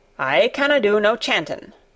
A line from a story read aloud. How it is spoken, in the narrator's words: said Ben Weatherstaff, a trifle testily